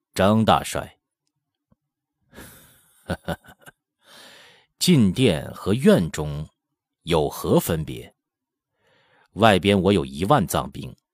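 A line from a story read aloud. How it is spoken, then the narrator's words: Hoarse, deep laugh. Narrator (Chinese): 沙罗奔额前红巾暴起，声音暗哑深沉的笑道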